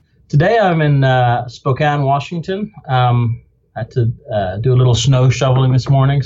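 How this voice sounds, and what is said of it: Non-American accent. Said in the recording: “obviously by your accent, that's not your native state”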